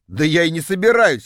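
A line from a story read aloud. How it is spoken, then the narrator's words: Scoffing grunt. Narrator (Russian): хмыкнул я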